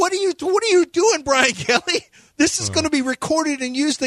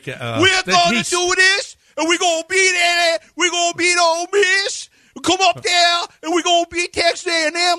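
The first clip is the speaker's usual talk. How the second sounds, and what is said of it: Imitating Brian Kelly's fake accent. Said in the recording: “his fake accent he had when he came to LSU ... The Brian Kelly accent. He used an accent”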